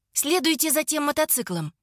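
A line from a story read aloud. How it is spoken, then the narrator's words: Hurried, slightly uneasy. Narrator (Russian): Торопливо говорю я водителю, чувствуя себя немного не в своей тарелке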